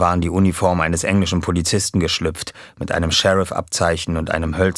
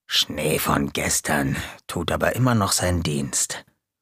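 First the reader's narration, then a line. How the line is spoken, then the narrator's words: Backstage murmur. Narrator (German): Hinter der Bühne murmelte Gonko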